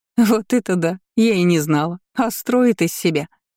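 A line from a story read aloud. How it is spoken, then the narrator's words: Young woman chuckling. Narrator (Russian): хохотнула одна из девиц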